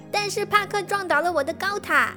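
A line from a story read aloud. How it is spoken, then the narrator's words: Dejected. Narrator (Chinese): 帕克看起来很沮丧，他说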